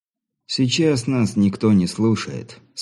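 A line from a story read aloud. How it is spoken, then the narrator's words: Calm. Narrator (Russian): спокойно проговорил брат Адам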